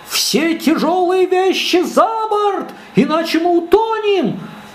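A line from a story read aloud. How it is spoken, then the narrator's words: Shouting. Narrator (Russian): капитан закричал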